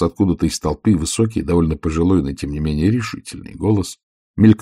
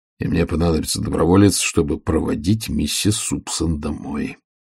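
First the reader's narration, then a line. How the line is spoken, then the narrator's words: Sighing. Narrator (Russian): вздохнул Ваймс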